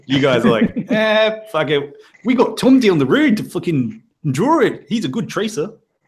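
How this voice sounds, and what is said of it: Put-on New Zealand accent. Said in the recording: “That was my New Zealand accent.”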